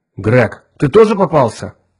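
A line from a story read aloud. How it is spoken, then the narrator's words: Shout into emptiness. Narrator (Russian): крикнул в пустоту капитан Фьючер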